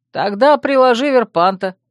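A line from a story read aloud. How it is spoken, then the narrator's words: Snide interjection. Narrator (Russian): ехидно вставил Урвук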